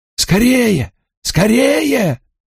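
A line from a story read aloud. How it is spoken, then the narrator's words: Shouting king. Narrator (Russian): кричал король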